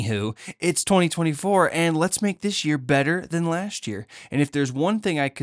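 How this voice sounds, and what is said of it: Usual voice. Nothing is said of it.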